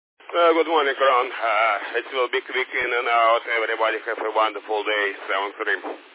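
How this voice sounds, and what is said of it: Rich, noticeable accent. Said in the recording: “I love your accent. It's so rich and wonderful.”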